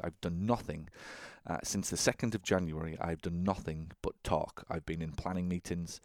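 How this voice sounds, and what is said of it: Croaky, slightly hoarse voice. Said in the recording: “My voice is a little croaky today. I've just literally been drinking some honey to try and soothe my voice.”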